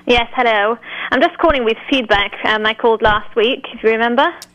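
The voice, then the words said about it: English accent. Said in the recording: “calling all the way from England, besides for the accent”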